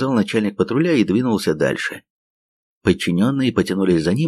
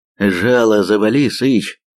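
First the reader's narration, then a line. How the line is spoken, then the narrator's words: Through clenched teeth. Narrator (Russian): процедил второй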